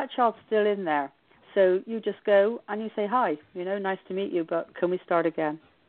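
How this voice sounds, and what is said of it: British accent. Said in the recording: “Harry Potter with your beautiful accent. Of course, us Americans naively.”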